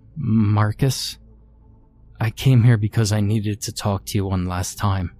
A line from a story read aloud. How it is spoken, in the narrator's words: said shakily